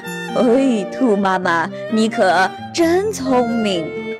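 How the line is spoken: Laughing. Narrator (Chinese): 熊法官也笑了

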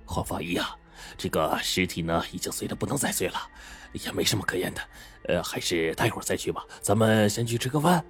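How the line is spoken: Low voice. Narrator (Chinese): 他低声说

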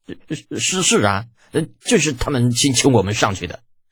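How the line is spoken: Near tears, stammering. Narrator (Chinese): 探子的表情都快哭了，结结巴巴的

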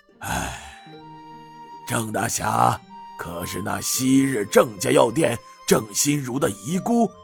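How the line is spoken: Sighing. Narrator (Chinese): 马知府叹声道

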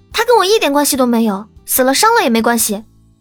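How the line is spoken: Angry. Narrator (Chinese): 恼怒道

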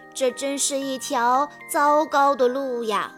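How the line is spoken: Sighing. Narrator (Chinese): 马蒂娜叹息道

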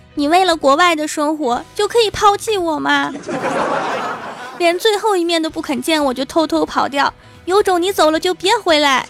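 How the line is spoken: Sobbing woman. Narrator (Chinese): 一个姑娘对着登机口跪地大哭，一边哭一边说

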